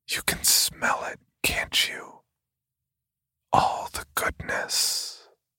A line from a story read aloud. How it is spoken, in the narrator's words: whispered in my ear